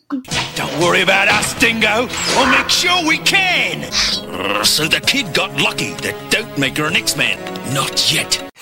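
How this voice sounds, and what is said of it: Australian accent. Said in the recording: “Wolverine with an Australian accent”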